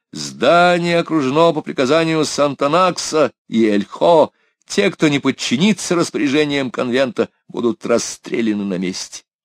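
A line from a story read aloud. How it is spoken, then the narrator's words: Shouting. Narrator (Russian): Он стоял, не боясь разъяренной толпы жутких людей, и кричал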